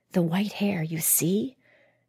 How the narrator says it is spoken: Ilka whispered to Matsui

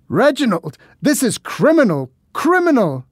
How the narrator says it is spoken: the man shouted after me

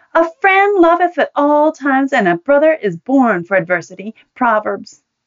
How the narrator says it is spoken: indignantly bellowed for all to hear

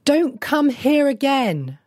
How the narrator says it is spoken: she cried after him

